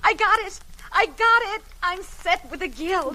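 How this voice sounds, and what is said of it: Breathless, excited young woman. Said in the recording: “came running into the parlor, all out of breath.”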